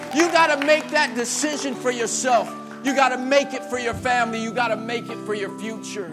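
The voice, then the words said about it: Shouting. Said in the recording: “I'm not just shouting this to look cool. I'm shouting it”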